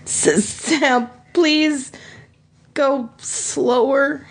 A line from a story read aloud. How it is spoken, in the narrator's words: he pleaded